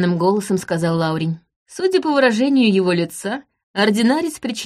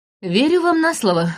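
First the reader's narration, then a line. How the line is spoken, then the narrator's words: Wry snort. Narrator (Russian): хмыкнула я, выпуская трубку изо рта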